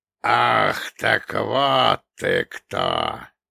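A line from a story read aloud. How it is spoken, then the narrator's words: Giant's low dangerous hiss. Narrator (Russian): прошипел великан, голос которого мгновенно потерял насмешливое выражение, став низким и опасным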